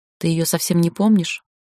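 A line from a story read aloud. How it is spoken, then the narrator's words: Quiet question. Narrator (Russian): тихо спросила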